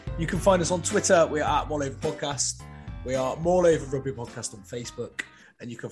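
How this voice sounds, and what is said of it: West Country English accent. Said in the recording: “with a West Country accent”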